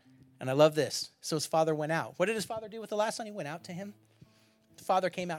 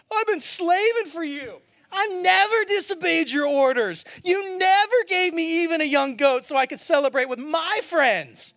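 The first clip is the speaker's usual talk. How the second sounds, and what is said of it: Whiny teenager voice. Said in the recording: “read it in my teenager voice.”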